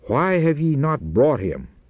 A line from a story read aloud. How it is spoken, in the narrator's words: They were angrily questioned